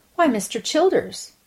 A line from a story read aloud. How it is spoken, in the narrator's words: exclaimed Miss Walters